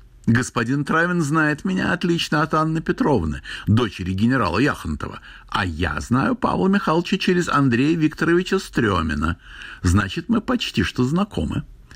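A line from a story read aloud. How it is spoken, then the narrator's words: Cheeky, overfamiliar. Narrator (Russian): сказала развязно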